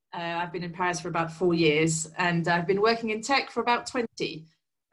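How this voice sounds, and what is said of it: Very English accent. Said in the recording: “as you can tell from my voice ... born and raised in England. So my very English accent.”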